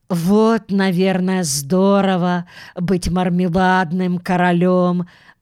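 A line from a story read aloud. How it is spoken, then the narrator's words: Envious sigh. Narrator (Russian): вздохнул он с завистью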